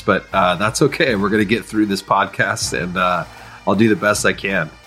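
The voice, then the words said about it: Sick-sounding voice. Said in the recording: “I am sick. You can probably hear it in my voice”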